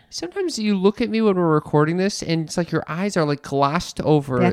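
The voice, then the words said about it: Thick Chicago accent. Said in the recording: “a Chicago accented millennial ... there's someone on The Bachelorette I heard has a Chicago accent, still not as thick as mine ... you got the Mike Ditka accent”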